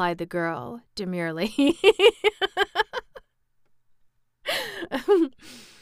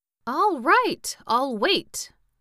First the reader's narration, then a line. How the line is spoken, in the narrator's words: replied the Pumpkinhead in a surly tone